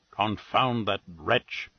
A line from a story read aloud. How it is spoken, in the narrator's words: he muttered